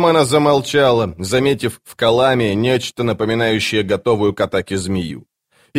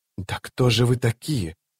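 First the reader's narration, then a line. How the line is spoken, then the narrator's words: Whisper. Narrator (Russian): прошептала она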